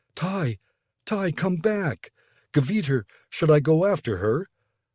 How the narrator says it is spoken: Betton's voice in the intercom pleaded

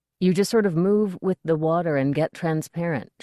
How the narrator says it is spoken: she said

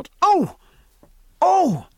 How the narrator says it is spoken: cried Martin

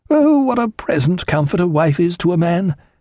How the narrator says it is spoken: exclaimed Martin, a smile breaking through the unaffected gravity of his expression

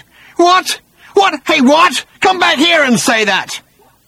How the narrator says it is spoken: shouted till his lungs rasped

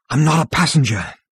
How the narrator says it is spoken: panted Zaphod

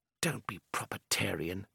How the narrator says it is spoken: Takvar muttered

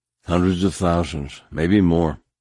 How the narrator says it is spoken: Captain Maine said grimly

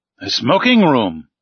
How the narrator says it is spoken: I cried

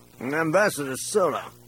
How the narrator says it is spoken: he said, slurring his words

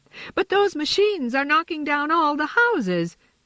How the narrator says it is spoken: Harriet cried

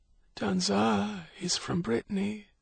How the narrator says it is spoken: she whispered

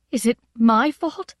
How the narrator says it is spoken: cried

